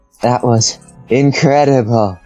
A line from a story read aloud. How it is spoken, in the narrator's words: she panted happily